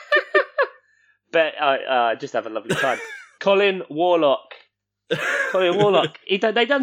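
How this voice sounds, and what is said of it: Usual voice. Nothing is said of it.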